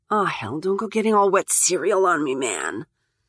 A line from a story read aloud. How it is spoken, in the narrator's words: she mutters